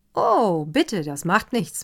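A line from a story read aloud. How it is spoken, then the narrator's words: Cheerful. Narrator (German): meinte Karl Erdmann fröhlich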